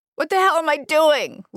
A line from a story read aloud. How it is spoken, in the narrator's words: Liz wailed